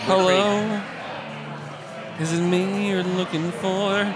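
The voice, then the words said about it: Nasal singing voice. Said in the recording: “That nasally timbre.”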